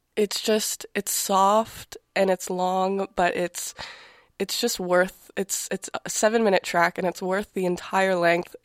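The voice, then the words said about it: Nasal, congested voice. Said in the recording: “the nasally voice is because I'm sick”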